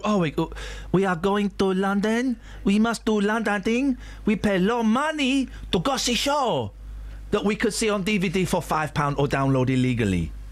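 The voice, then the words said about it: Put-on foreign tourist accent. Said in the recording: “I'm not saying what accent that was, because that would get me in trouble.”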